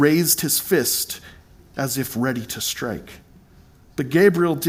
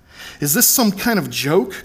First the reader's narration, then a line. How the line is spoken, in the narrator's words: cried Balthazar